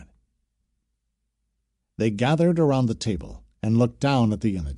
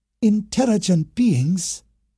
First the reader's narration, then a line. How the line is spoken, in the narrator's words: Seiko exclaimed